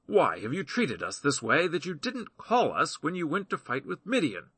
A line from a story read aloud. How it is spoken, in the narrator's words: They rebuked sharply